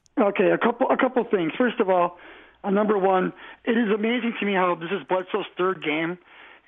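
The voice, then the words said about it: Slightly hoarse voice. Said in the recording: “I was at the game, so my voice is a little hoarse.”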